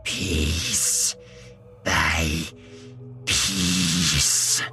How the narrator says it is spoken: she hissed in a choked voice

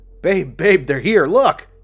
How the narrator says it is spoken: He shouted with glee

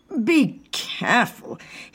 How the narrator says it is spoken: said through clenched teeth

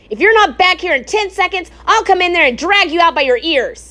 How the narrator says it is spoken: shouted Frederick

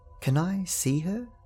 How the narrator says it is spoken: said quietly

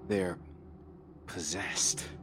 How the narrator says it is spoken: I muttered

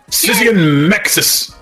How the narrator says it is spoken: Ryan yelled

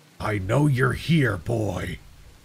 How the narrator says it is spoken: growls

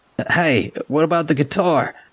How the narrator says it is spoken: Lunch Money yelled at me

